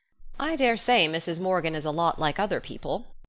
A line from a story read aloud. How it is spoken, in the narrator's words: said Marilla dryly, although she did feel a trifle excited herself